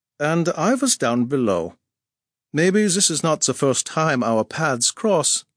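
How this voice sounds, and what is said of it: Slight German accent. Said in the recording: “spoke English with a slight, not unpleasant, Teutonic accent”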